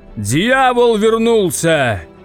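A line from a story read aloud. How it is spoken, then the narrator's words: Booming. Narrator (Russian): прогудел большой папа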